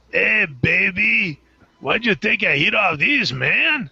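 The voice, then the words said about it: Imitates another person's voice. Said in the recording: “did a pretty good impression... Like Cheech Marin”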